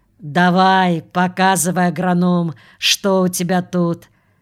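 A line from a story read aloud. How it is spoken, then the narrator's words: Bossy booming voice. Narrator (Russian): И все же сбился, начальнически прогудел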